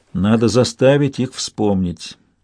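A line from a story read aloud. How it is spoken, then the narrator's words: Soft. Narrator (Russian): мягко сказал Чейд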